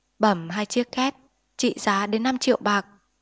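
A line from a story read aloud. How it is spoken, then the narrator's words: Sighing question. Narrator (Vietnamese): Bỗng con vợ thở dài hỏi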